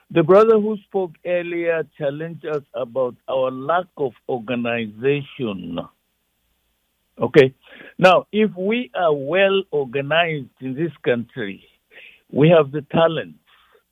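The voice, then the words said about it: African accent. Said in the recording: “I'm speaking with an African accent, with pride, too.”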